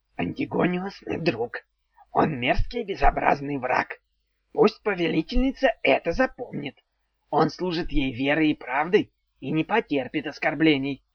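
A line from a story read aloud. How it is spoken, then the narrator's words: Peaceable mutter. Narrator (Russian): буркнул он уже вполне миролюбиво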